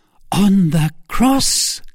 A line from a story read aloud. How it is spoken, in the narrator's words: cried I, rising, for at that abhorred voice I had recovered all my strength